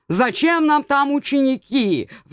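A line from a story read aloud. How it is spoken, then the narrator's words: Howling cat. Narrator (Russian): взвыл кот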